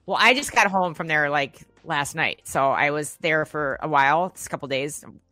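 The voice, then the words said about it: Minnesota accent. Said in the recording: “your accent. You say, like, Minnesota... people ask if I'm either from Michigan or Minnesota or Canada.”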